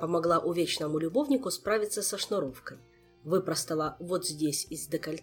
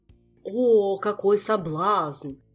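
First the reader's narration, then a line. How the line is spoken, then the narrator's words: Tragic wail. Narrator (Russian): трагически взвыл Кантор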